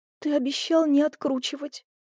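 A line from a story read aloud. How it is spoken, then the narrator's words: Whispered. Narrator (Russian): прошептала я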